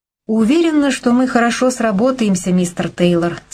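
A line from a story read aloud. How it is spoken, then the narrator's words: Plain. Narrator (Russian): сказала Кейси вслух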